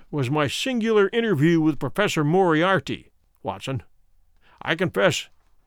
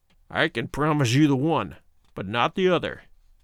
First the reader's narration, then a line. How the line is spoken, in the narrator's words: he snarled